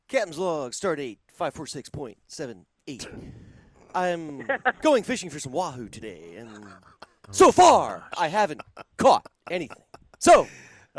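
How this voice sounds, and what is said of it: Captain Kirk character impression. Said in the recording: “your best Captain Kirk impression”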